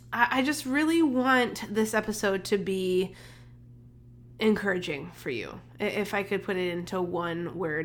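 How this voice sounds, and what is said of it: Slightly congested voice. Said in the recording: “sorry for my voice. I'm still a little bit congested”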